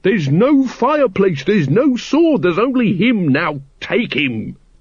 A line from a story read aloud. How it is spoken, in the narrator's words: screamed Once